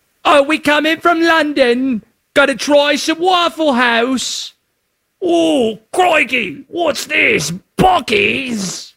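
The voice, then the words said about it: Poor put-on British accent. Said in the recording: “My accents are awful, sorry.”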